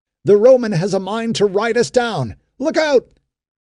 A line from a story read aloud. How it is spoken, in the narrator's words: Malik shouted to Ben-Hur